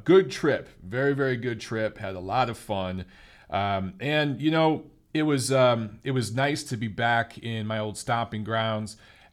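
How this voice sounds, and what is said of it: Tired, exhausted voice. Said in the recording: “You could probably hear the exhaustion in my voice.”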